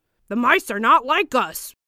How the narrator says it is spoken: exclaimed yet another voice

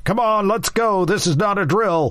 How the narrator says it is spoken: yelling

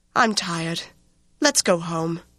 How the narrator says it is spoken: sighed and said

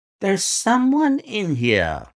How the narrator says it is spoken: cried Lestrade

